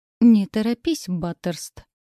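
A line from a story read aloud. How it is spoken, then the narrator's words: Through gritted teeth. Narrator (Russian): процедил мой супруг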